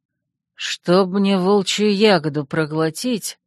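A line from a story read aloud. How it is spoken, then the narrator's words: Hissed, young man. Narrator (Russian): прошипел угловатый парень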